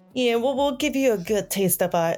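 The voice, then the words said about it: Put-on Italian accent. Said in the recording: “my Italian accent just came out of nowhere”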